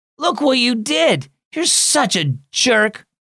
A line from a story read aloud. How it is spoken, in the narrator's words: Ryan shouted